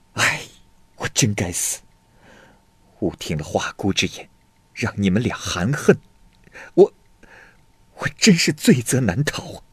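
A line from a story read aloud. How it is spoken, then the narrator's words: Sighing. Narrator (Chinese): 妇联叹息道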